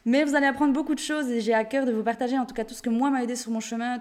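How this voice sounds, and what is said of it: Strong Swiss Jura French accent. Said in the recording (French): “je viens de Suisse, du Jura, une, petite, une, petite, région en Suisse. Et c'est vrai que j'ai un bon accent”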